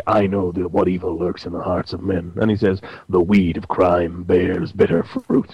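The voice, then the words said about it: Batman voice impression. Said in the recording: “I'm doing this Batman voice. I should be doing Orson Welles, but I can't do Orson Welles.”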